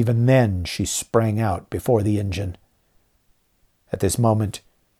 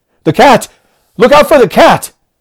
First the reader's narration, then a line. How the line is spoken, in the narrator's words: I cried out